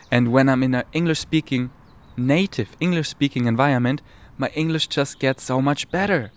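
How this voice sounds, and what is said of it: Non-native English accent. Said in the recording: “I'm not a native speaker, as you hear ... my accent”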